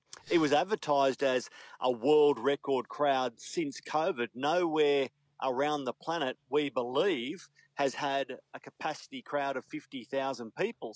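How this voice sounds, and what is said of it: Broad Australian accent. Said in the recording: “that accent ... these bumpkin down under Aussies”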